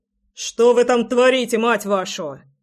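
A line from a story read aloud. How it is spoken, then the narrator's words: Growling over intercom. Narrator (Russian): рычал Громов в переговорное устройство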